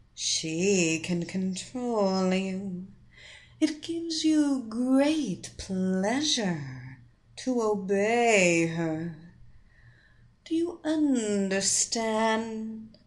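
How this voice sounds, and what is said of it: Hypnotic voice. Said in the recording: “in her hypnotic voice”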